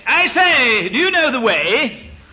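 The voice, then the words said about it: Fruity upper-class English accent. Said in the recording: “who speaks with a very fruity accent, because he used to play for Cambridge as well, where you learn a fruity accent.”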